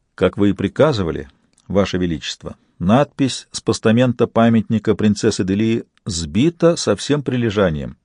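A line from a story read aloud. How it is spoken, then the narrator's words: Quiet report. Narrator (Russian): он негромко доложил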